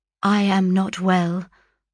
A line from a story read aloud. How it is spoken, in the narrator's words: I replied